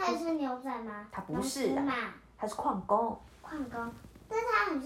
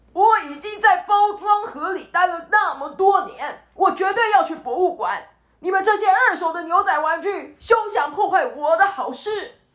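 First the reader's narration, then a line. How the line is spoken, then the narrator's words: Loud shouting. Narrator (Chinese): 矿工彼得大喊着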